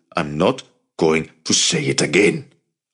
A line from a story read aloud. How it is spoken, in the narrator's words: Avi ordered, his voice low and fierce